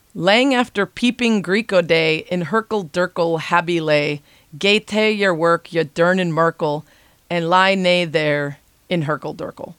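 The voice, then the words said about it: Deliberately bad put-on Scottish accent. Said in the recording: “my terrible Scottish accent”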